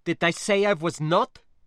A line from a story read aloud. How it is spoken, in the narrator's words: she snapped back